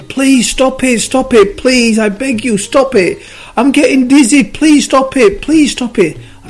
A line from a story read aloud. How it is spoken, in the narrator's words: the clay started screaming again